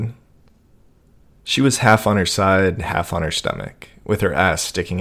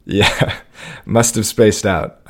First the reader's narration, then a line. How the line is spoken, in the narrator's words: I laughed